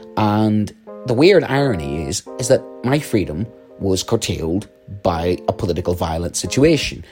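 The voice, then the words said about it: Northern Irish accent. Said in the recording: “you can tell from my accent, um, a situation in, in the north of Ireland”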